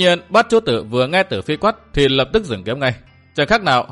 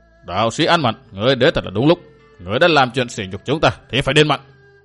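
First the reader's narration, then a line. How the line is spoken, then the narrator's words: Stern. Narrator (Vietnamese): Cảnh Minh nghiêm giọng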